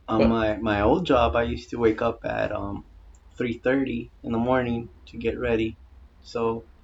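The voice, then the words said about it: Sick voice with a cold. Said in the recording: “sorry about my voice. I'm a little sick. ... I think I have a cold.”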